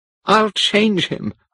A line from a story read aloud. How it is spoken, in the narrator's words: cried